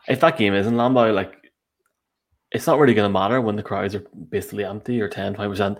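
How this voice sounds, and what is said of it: Toronto accent. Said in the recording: “my bad Toronto accent.”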